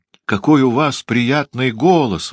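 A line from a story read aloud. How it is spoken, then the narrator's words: Exclaimed, little frog. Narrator (Russian): воскликнул лягушонок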